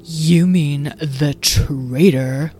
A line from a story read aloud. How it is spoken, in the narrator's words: spat Freesia